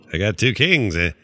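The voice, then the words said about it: Poor Norm Macdonald impression. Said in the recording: “terrible impression of Norm”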